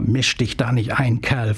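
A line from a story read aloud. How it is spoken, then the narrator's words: Hissing snarl. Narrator (German): fauchte sie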